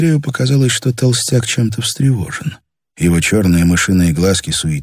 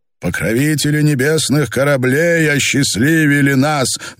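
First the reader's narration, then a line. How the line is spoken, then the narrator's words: Loud repetition. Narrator (Russian): громко повторил Герольд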